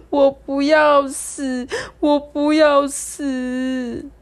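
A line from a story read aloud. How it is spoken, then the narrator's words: Sobbing nonstop. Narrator (Chinese): 刘大伟哭个不停，说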